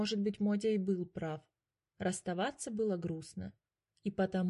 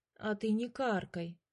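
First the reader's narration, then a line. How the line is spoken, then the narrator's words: Offended. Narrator (Russian): обиделся Котя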